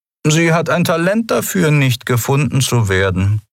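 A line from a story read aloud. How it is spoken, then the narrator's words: Dry. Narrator (German): sagte er trocken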